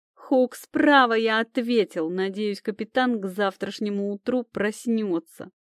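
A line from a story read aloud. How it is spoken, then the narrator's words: Elf growling. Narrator (Russian): прорычал эльф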